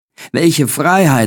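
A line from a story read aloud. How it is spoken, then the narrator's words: Exclaimed. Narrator (German): rief ich aus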